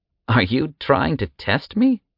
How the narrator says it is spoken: the man laughed

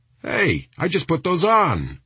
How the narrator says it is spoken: he shouted

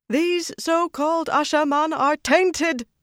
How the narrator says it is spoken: Saroya called out, with no sign of the vaunted white Aja reserve

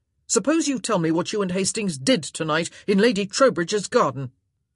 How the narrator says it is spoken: he said sharply

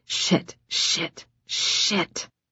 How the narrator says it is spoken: muttering

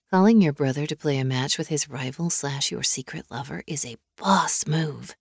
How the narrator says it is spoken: Brooklyn whispered

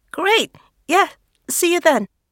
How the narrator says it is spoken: she stammers, blushing

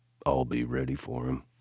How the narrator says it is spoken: I said grimly

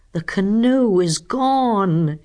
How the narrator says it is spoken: groaned

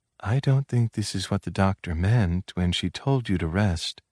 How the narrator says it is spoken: For his ears alone, she whispered

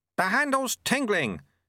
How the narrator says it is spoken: shouted Lutse

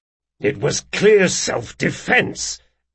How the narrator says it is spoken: growled Jean

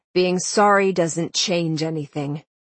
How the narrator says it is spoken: Nox said with a sigh

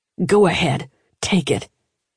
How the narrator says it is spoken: he snarled

